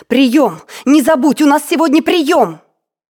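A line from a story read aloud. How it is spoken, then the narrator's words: Shout. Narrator (Russian): она крикнула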